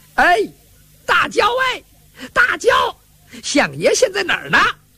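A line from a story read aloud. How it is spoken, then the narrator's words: Calling out. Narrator (Chinese): 严二找不着严嵩啊，他喊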